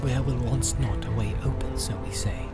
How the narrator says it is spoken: he whispered

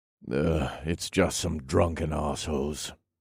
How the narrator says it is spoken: I muttered

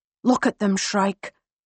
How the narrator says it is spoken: Harper whispers

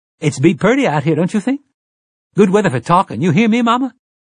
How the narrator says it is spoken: Detta said brightly

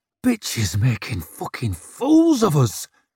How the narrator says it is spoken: snarled Salby

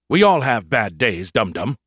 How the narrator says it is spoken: he snapped at me

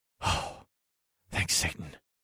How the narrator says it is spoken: I whispered

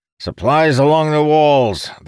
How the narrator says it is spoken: the commander shouted

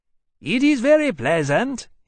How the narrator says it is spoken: he called out

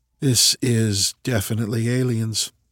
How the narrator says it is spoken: Marcus said quietly

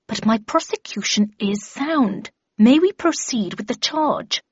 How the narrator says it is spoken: he replied through gritted teeth

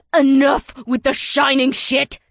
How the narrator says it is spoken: Naomi spat

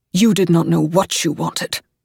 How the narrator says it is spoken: he says sharply

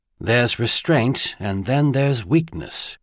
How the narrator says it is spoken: Garvey thought grimly

